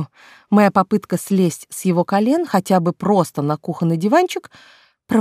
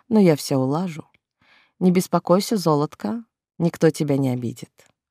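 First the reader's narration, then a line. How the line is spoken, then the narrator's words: Promising. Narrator (Russian): пообещал он мне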